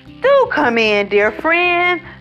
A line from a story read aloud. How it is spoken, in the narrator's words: Oscar opens the door, exclaiming